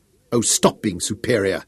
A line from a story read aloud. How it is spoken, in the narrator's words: she snapped